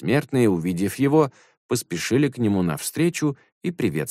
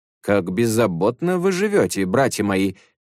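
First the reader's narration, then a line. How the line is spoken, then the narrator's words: Laughing speech. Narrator (Russian): смеясь, сказал Суньюкун девяти старцам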